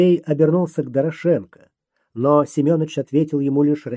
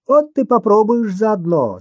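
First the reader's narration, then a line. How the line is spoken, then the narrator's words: Laughing. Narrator (Russian): засмеялся Кука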